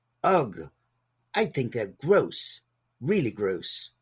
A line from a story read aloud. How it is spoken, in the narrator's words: Lindy exclaimed